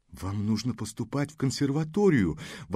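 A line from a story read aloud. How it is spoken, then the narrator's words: Exclaimed. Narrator (Russian): воскликнул Алан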